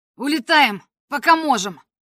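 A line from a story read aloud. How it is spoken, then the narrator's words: Shouting. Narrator (Russian): это кричал Куанхи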